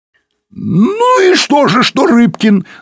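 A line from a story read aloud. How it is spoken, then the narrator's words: Shouting. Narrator (Russian): закричал Пучко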